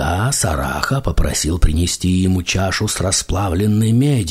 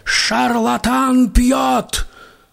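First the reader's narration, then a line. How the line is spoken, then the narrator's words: Group shouting back. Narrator (Russian): Брахманы закричали в ответ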